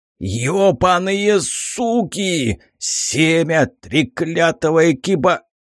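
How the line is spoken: Growled. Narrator (Russian): Зарычал я

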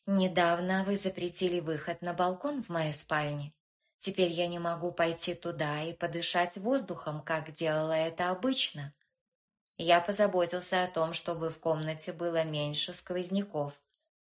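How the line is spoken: Plain. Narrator (Russian): ответил Реджес

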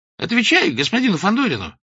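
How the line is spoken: Sharp shout from behind. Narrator (Russian): прикрикнул сзади Клочков

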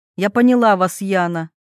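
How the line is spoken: Stern, firm. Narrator (Russian): строго произносит хозяйка

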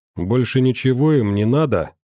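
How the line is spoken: Snide question. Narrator (Russian): ехидно спросил Белов

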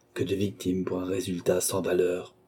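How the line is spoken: Murmured. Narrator (French): murmura-t-il

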